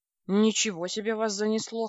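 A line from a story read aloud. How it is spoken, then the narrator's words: Snorting. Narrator (Russian): хмыкнул он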